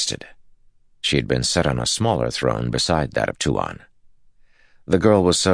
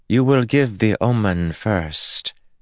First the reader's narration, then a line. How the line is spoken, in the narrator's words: Tuon said, her tone unchanged